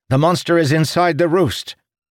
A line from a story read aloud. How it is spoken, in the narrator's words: the illusionist cried